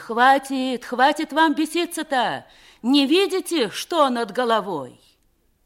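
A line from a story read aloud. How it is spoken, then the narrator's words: Wailing women. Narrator (Russian): Старухи и жонки завопили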